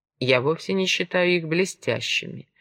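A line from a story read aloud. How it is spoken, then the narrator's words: Calm. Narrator (Russian): спокойно ответил Овод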